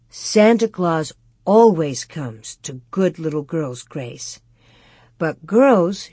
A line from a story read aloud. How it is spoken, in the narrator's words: Ma said firmly